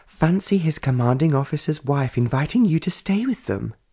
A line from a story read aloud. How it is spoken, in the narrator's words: Justina exclaimed